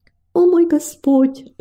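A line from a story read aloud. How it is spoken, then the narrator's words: Pleading prayer. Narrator (Russian): взмолилась она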